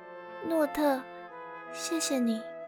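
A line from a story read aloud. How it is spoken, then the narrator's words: Soft voice. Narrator (Chinese): 淡淡的人影，轻声地说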